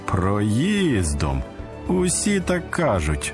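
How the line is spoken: Mocking laugh. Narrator (Ukrainian): засміявся глумливо другий син

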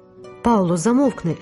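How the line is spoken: Fearful exclamation. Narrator (Ukrainian): вигукнула Роза, боячись жахливих наслідків такої нерозважливої сміливості

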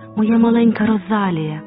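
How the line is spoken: Joyful exclamation. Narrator (Ukrainian): радісно вигукнула тітка Люсі

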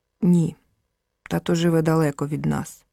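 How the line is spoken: Sighing. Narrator (Ukrainian): зітхнув Ромчик

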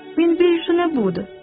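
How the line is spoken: Plain. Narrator (Ukrainian): сказав скік

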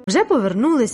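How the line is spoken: Exclaiming. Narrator (Ukrainian): вигукнув Луїс

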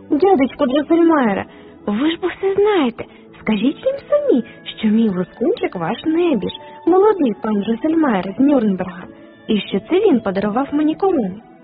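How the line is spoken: Exclaiming. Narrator (Ukrainian): Марі побачила, що батьки перегнівились, вона підбігла до хрещеного і вигукнула

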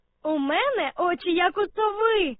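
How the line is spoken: Laughing from above. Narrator (Ukrainian): засміялася Аня з верхівки дерева

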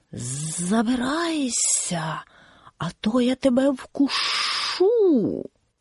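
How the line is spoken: Hissing snake. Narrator (Ukrainian): Змія зашипіла

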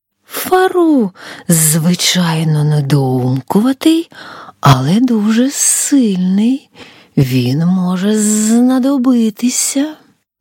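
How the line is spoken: Hissing. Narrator (Ukrainian): прошипіла

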